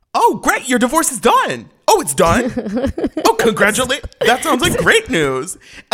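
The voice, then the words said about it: Imitates another person's voice. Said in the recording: “that's such a good impression.”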